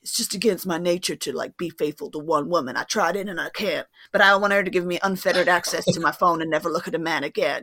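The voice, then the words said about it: Imitates another person's voice. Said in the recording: “it was a very good impression, by the way... It felt like I was watching one of the TikTok clips”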